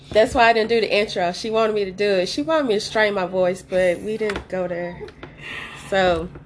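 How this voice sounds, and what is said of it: Deep, sick-sounding voice. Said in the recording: “I am sick, that's why I sound like this. I know I have a deep voice anyways, but if it sounds deeper or weirder, I'm sick.”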